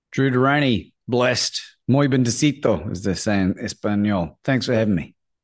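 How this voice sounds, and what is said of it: Australian accent. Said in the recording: “I love with the Australian accent and the Spanish lingo.”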